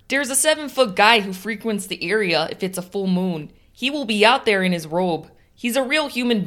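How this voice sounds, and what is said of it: Put-on Chicago accent. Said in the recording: “has a fantastic Chicago accent that does Eddie Schwartz all the justice.”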